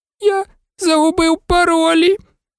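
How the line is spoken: Despairing groan. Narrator (Ukrainian): розпачливо простогнав Невіл

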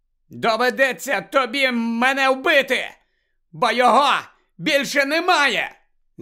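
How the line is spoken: Shouted. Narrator (Ukrainian): закричав Гаррі

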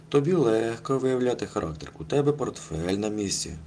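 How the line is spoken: Sighing. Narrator (Ukrainian): зітхнув Кося

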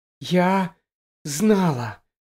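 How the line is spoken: Whisper. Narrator (Ukrainian): прошепотіла

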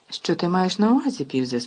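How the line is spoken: Calm question. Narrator (Ukrainian): спокійно запитав Даблдор

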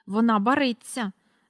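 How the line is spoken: Angry and anxious. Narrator (Ukrainian): сердито й занепокоєно сказала місіс Корі

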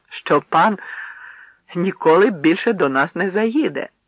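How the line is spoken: Mocking, laughing emphasis. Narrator (Ukrainian): навмисно підкреслюючи титули, весело сміявся з них

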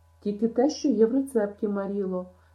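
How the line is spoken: Anguished exclamation. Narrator (Ukrainian): страдницьке вигукнула Ен

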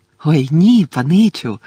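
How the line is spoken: Cheerful explanation. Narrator (Ukrainian): радісно пояснив Добі

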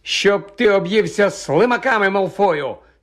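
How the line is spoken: Angry retort. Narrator (Ukrainian): сердито обізвався Рон

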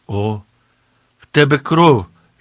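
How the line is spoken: Girl's sudden cry. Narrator (Ukrainian): скрикнула нараз дівчина

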